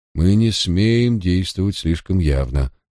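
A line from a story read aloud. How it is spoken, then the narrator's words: Sighing. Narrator (Russian): вздохнул лорд Парр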